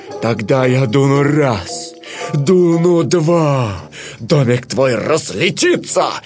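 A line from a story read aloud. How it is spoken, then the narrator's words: Growling wicked wolf. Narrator (Russian): прорычал злой серый волк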